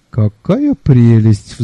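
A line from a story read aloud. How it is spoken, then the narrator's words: Sigh. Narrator (Russian): вздохнул я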